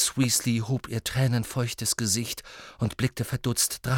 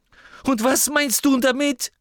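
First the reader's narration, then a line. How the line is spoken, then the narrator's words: Sudden loud speech. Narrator (German): sagte plötzlich und laut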